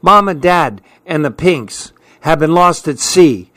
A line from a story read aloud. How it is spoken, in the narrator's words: she cried out